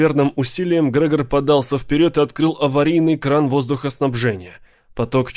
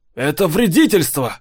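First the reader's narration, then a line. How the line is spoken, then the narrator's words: Roared. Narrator (Russian): взревел Арнольд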